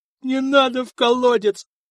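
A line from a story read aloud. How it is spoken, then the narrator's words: Terrified whimper. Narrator (Russian): проскулил Борич, наливаясь ужасом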